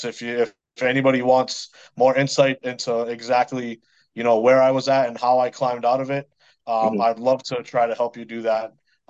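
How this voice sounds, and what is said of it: Boston accent. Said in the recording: “talk to a guy from the Boston area and make fun of my accent”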